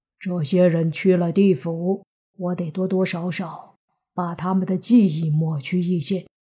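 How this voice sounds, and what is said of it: Speaking quietly, low voice. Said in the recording (Chinese): “小声说”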